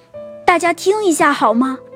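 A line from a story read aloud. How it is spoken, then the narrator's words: Sudden loud shout. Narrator (Chinese): 爸爸突然大声叫道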